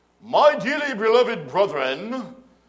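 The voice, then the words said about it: Mock Shakespearean English accent. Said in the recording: “all of a sudden, he has an English accent, and he's very Shakespearean.”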